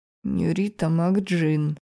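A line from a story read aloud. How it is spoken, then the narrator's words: Strangled words through teeth. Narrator (Russian): сдавленно процедил чешуйчатый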